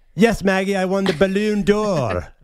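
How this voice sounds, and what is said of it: Bad put-on British accent. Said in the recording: “your bad British accent again? ... so bad ... this is awful”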